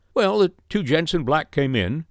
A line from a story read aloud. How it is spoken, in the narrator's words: said the waiter